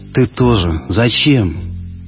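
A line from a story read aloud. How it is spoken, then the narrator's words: Whispered, silently crying. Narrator (Russian): прошептала она и беззвучно заплакала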